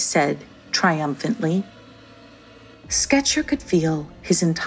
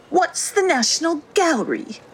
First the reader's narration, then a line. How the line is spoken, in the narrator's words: asked Albert in a whiny tone